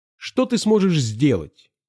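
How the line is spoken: Exasperated exclamation. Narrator (Russian): воскликнул в сердцах Пашка

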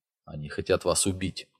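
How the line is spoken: Very quiet old man. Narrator (Russian): очень тихо проговорил старик

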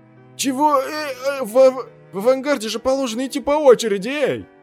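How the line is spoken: Loud complaining. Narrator (Russian): начал громко жаловаться

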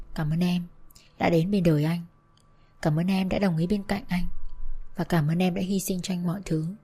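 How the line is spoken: Tender whisper. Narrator (Vietnamese): rồi thủ thỉ

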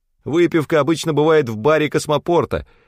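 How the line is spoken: Shouted after someone. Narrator (Russian): крикнул вслед

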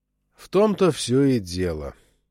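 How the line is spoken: Tired. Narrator (Russian): устало сказал Чак

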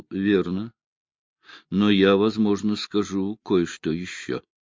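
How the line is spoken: Slow speech. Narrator (Russian): Коттон медленно проговорил

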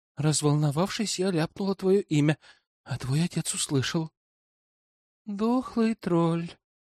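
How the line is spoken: Dejected moan. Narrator (Russian): Простонал я удрученно

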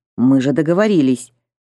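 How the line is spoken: Stern. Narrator (Russian): Юкин строго сказал Михайлову

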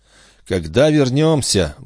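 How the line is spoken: Sighing repetition. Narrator (Russian): вздохнув, повторил Жюэль

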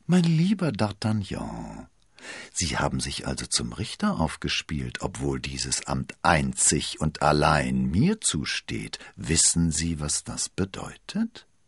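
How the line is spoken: Gentle voice. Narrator (German): sagte er mit sanfter Stimme

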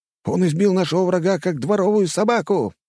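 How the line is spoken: Cheerful shout. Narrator (Russian): весело крикнул кто-то

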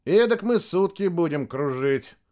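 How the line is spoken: Dejected. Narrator (Russian): уныло сказал лейтенант

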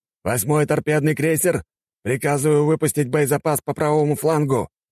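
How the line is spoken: Shouted command. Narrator (Russian): прокричал Черепанов

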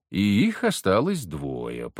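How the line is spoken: Purring. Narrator (Russian): промурлыкал я

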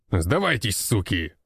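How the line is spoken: Gruff growl. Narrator (Russian): рыкнул здоровяк

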